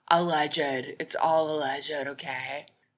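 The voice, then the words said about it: Lisa Barlow impression. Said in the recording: “In my Lisa Barlow voice.”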